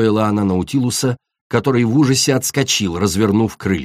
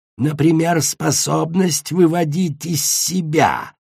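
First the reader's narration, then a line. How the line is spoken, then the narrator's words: Hissing. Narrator (Russian): зашипела ожог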